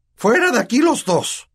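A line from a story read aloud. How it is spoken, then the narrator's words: Uncle shrieking. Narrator (Spanish): chilló tío Vernon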